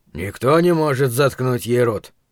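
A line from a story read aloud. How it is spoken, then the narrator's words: Distant grumble. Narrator (Russian): пробурчал Крис Ортега из хвостовой части салона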